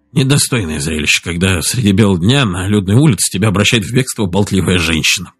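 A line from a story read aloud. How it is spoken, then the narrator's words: Muttered grumble. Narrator (Russian): проворчал он себе под нос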